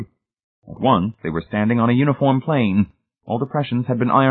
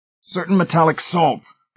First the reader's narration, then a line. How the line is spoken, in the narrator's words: Hamilton screamed